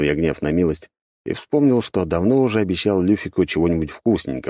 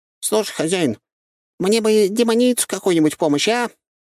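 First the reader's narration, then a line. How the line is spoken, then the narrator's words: Hopeful squeak. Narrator (Russian): С надеждой в голосе пропищал он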